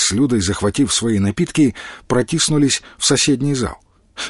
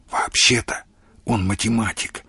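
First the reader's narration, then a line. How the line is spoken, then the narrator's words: Whispered. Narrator (Russian): шепнула Маша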